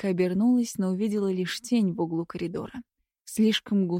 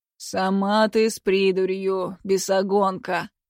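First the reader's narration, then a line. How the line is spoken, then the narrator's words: Hoarse grumble, close by. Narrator (Russian): Проворчал хриплый голос совсем рядом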